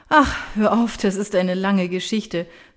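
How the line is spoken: Dismissive with a sigh. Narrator (German): wiegelt Miriam seufzend ab

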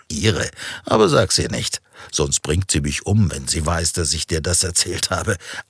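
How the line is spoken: Answer. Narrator (German): antwortete Christian

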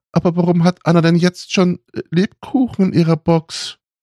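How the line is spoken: Sobbing. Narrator (German): schluchzte sie

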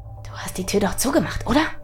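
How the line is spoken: Quiet hiss. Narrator (German): zischte er leise

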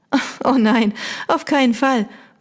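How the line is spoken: Laughing. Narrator (German): Mia lachte

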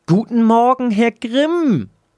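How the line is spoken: Squeaky receptionist. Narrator (German): piepste die Empfangsdame

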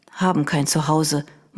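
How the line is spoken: Boy murmuring. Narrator (German): murmelte der Junge

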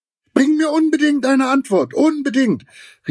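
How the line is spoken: Called after. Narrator (German): rief Giraffe ihm noch nach

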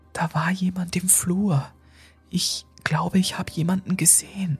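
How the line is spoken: Whisper. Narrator (German): flüsterte Lucy

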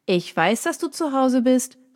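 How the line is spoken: Familiar voice calling from outside. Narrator (German): rief eine bekannte Stimme von draußen

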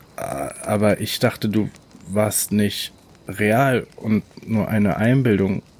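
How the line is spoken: Stuttering. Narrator (German): stotterte er

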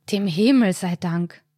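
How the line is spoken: Sighing. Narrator (German): seufzt Karl dann

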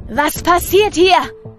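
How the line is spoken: Shrieking. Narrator (German): kreischt der schwarz-weiße Clown

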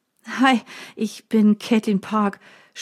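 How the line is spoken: Stammering, still shaken. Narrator (German): stottere ich, als ich mich von meinem Schreck wieder erholt habe

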